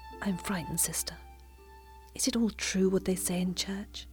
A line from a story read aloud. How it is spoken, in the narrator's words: His voice had dropped to an agonizing whisper